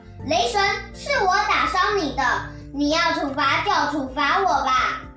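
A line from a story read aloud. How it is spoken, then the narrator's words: Loud shouting. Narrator (Chinese): 阿里朝空中大声喊着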